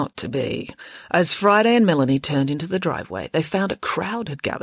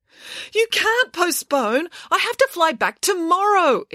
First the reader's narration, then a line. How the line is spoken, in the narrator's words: exclaimed Mirabella